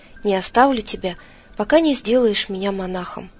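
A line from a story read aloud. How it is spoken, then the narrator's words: Exclamation, priest. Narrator (Russian): жрец … воскликнул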